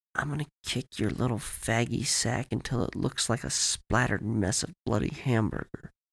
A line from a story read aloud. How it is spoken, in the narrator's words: Todd whispered in Timmy's ear